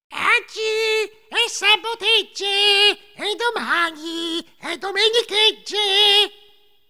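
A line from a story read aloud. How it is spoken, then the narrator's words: Shrill singing. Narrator (Italian): La più brutta iniziò a cantare con voce stridula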